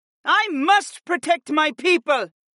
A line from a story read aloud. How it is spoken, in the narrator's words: cried